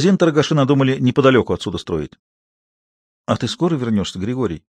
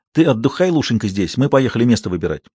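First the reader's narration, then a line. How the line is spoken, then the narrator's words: Hurried. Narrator (Russian): торопливо, боясь отстать от других, сказал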